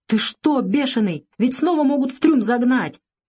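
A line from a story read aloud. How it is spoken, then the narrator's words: Shouted. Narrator (Russian): закричал он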